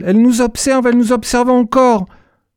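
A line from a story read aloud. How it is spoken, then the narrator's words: Shouted. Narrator (French): cria-t-elle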